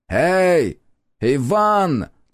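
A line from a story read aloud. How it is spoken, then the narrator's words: Shout. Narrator (Russian): крикнул он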